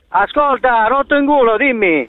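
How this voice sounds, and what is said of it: Exaggerated mix of regional dialects. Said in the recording (Italian): “che accento del cazzo che hai! Di dove sei io? ... hai passato 464 dialetti in tre parole”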